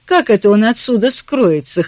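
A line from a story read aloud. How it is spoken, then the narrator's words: Skeptical snort. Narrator (Russian): хмыкнул Джипсон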